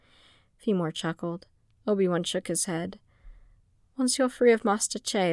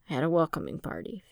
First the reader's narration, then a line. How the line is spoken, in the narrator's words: replied dryly